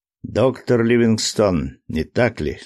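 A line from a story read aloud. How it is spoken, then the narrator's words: Plain. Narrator (Russian): спросил он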